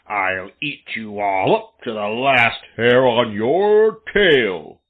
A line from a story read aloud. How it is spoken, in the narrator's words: growled Buster